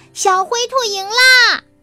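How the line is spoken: Loud shout. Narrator (Chinese): 小田鼠也大声喊叫

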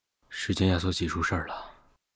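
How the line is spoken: Deep, grave voice. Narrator (Chinese): 只是沉声道

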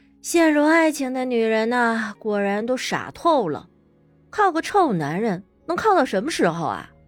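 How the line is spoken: Sighing. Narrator (Chinese): 乐乐叹了口气

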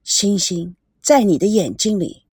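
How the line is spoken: Soft male murmur. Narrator (Chinese): 轻轻的、柔和的一个男人喃喃的声音

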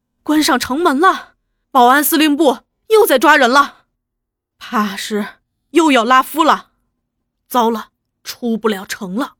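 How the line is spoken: Breathless, panting. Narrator (Chinese): 那人喘息未定

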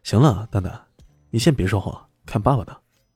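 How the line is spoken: Soft, smiling. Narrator (Chinese): 李轩笑了，轻声的说了句

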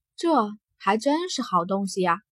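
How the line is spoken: Soft sigh. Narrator (Chinese): 金红轻叹

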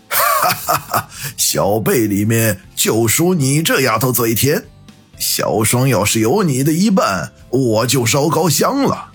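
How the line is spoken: Hearty laughter. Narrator (Chinese): 那人哈哈笑道

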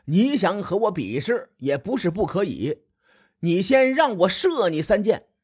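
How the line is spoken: Loud, arrogant. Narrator (Chinese): 斗椒依然很狂妄，他大声说

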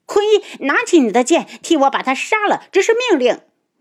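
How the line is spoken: Shouting. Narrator (Chinese): 苏如意大叫

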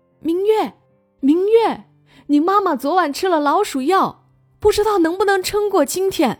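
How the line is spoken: Old goblin, loud yell from afar. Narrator (Chinese): 老妖精在警戒线之外大叫

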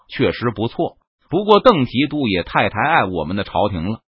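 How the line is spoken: Playful laugh. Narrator (Chinese): 他凑趣的笑道

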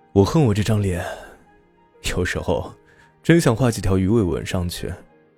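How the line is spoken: Laughing. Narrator (Chinese): 他笑着说

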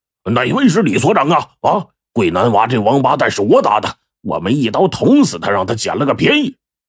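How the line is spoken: Menacing loud shout. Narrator (Chinese): 一个满脸杀气的壮汉高声喊道

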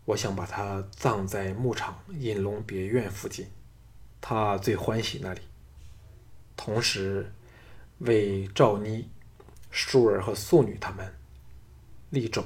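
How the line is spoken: Forced calm, slow. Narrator (Chinese): 项少龙尽力使声音保持着平静，缓缓地说

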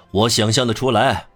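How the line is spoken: Loud. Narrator (Chinese): 格朗泰尔大声说

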